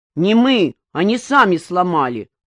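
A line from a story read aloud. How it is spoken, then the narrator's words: Angry reply. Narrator (Russian): зло ответил Васька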